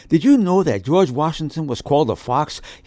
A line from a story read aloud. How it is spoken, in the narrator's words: He breathlessly asked his mom as he ran into the house